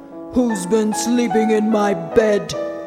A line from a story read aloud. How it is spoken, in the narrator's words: growled the Father Bear